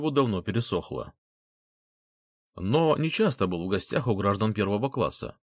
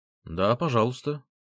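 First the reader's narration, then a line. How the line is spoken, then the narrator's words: Plain young man. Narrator (Russian): ответил молодой человек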